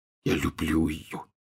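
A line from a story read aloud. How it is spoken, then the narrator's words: Barely audible. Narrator (Russian): чуть слышно повторил Рон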